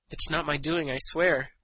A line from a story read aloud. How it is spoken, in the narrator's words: Anstrom finally stammered